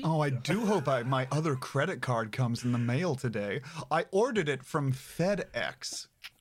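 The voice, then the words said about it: Stilted put-on American accent. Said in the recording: “my American impression sounds like something that would be used to teach English to mainland Chinese people”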